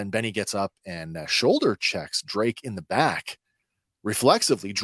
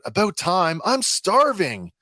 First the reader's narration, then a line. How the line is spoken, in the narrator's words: Drake blurts out